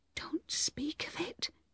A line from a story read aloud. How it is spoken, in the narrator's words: whispered